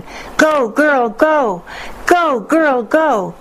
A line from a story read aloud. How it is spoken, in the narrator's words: A boy began yelling